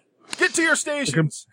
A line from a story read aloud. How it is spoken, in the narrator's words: the other one yells at him